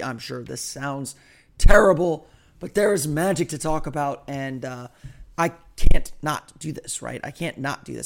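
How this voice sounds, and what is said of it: Hoarse voice. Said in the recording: “my voice is much more hoarse than I thought it was ... I apologize for the hoarseness of my voice”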